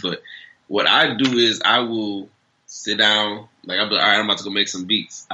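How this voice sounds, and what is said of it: Congested, allergy-affected voice. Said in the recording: “I have, like, a little allergy stuff going on, so that's why my voice sounds crazy”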